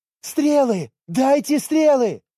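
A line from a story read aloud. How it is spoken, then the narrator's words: Shouting. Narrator (Russian): закричала Миори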